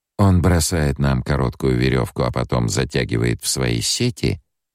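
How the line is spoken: Deceptively impassive. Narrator (Russian): спросила Сиона обманчиво бесстрастным тоном

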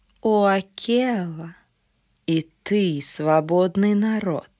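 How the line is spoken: Purring. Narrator (Russian): промурлыкала она

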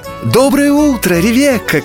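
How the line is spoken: Shouted greeting, several voices. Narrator (Russian): кричали они

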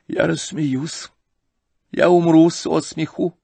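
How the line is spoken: Sad. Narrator (Russian): печально сообщила она

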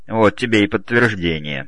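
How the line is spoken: Grumbling with a chuckle. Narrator (Russian): со смешком проворчал второй

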